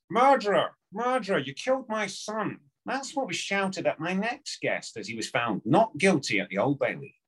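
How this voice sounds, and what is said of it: Imitates another person's voice. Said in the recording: “an Alan Partridge impersonation”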